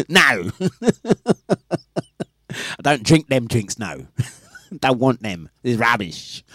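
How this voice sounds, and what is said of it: Put-on made-up accent. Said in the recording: “I've just given you a fictitious accent. She doesn't talk like that, but for the purposes of the explanation, her accent is this.”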